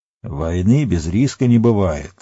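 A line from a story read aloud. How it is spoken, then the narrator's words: Grumbling. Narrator (Russian): проворчал Денетер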